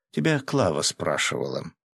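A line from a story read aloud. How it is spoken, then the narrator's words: Snide remark. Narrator (Russian): ехидно заметила Катя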